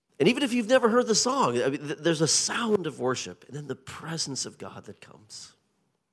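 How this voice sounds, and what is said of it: Colonial twang accent. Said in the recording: “I'm not born and raised in Chertsey, can't you? I've been working on my accent for 8 years, and this is the best I've got. So pardon my colonial twang.”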